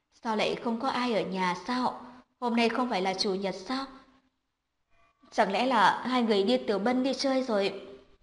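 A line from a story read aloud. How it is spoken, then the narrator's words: Quiet voice. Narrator (Vietnamese): có người giọng nhỏ giọng nói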